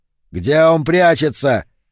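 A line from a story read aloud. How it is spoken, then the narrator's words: Frantic screaming. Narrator (Russian): снова завопил Палатазин, безумный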